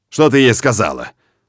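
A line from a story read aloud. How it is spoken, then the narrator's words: Menacing growl. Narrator (Russian): Грозно рычу я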